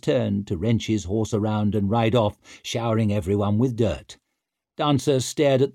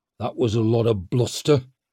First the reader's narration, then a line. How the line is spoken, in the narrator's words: grumbled Downside